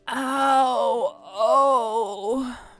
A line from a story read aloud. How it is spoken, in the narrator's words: Braylon moaned